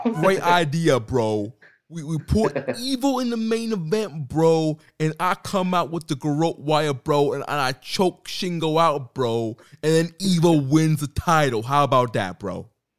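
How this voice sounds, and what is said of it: Imitates another person's voice. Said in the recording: “with a Russo accent”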